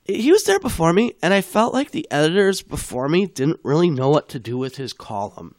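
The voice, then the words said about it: Husky voice from a cold. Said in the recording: “pardon my voice, is not always this husky. I have a little bit of a cold.”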